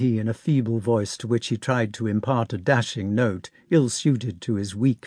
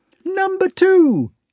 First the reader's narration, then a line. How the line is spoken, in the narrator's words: he squeaked